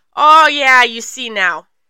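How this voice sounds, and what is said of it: Attempted Florida accent sounding Minnesotan. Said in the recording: “This was supposed to, be a Floridan accent. ... Why the fuck did it turn Minnesotan? That was so Minnesotan.”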